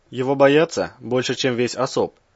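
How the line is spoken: Snorted. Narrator (Russian): хмыкнул Раз

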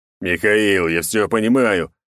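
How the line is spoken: Growled over radio. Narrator (Russian): прорычал Черномор в рацию

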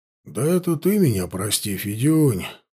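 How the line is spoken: Sad sigh. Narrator (Russian): Вздохнул печально Кудряш

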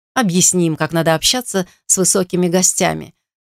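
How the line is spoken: Menacing hiss. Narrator (Russian): угрожающе прошипел рыжий

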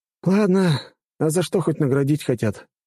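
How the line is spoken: Resigned sigh. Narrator (Russian): обреченно вздохнул я

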